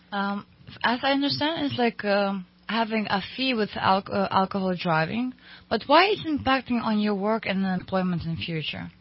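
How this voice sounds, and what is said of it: Noticeable non-native accent. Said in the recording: “I can just listen to you all day long, by the way... I love your accent”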